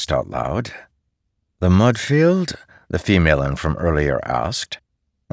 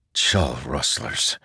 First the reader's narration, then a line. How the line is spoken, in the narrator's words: he muttered